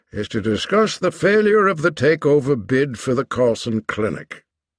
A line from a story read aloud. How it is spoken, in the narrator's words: the chairman said dryly